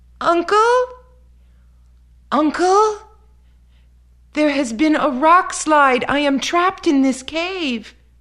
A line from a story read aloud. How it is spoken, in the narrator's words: He called out